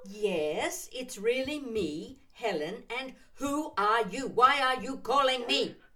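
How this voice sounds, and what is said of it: Shouting. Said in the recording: “Why are you shouting at me?”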